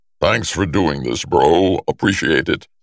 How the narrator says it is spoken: Thor booms, because even Thor's indoor voice is like that

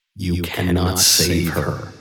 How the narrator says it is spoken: they hissed and whispered

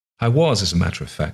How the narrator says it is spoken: said Margaret

